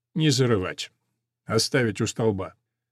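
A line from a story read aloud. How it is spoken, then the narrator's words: Quiet and soft. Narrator (Russian): полковник негромко и мягко говорит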